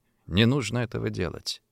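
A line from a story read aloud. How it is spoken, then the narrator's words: Quiet. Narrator (Russian): тихо сказал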